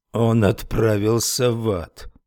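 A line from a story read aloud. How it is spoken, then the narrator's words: Muttering. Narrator (Russian): пробормотал Уитни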